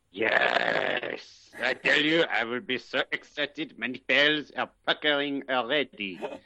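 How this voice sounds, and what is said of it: Outrageous put-on French accent. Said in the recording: “I'm a French. Why do you think I have this outrageous accent”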